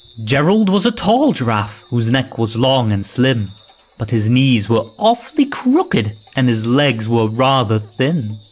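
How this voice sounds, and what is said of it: Scottish accent. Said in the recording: “With a Scottish accent, I think. This person narrating.”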